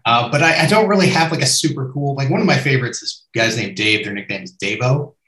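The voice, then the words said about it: Neutral American accent. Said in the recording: “I still have a hard American accent ... my neutral American accent”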